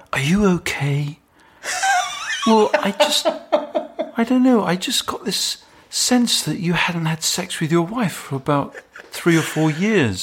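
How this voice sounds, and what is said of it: Nick Broomfield impression. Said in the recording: “So you're doing Nick Broomfield, right?”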